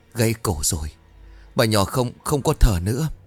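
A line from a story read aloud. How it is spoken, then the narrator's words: Trembling voice. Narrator (Vietnamese): Một tên gia nhân nói với bà Lý giọng run rẩy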